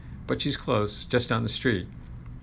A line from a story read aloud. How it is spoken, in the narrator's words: said the patient in an inimitable Albanian accent